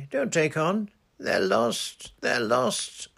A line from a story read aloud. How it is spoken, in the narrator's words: sobbed Susan